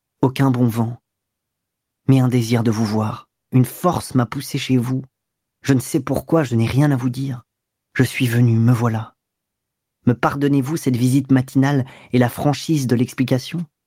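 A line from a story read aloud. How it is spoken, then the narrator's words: Playful, smiling, serious undertone. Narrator (French): Il disait cela d'un ton galant et badin, avec un sourire sur les lèvres, et un accent sérieux dans la voix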